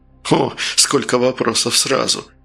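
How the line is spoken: Laughing. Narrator (Russian): Фигаро засмеялся

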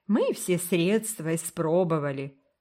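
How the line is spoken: Muffled, sorrowful. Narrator (Russian): глухо сказала бедная Сюзан

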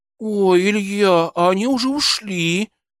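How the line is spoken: Regretful drawl. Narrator (Russian): с сожалением протянула Машенька

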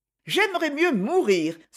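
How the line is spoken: Contemptuous exclamation. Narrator (French): s'écria-t-elle avec mépris

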